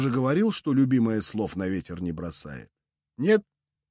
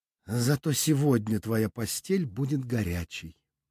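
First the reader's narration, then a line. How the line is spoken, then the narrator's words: Quiet. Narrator (Russian): Веда тихо произнесла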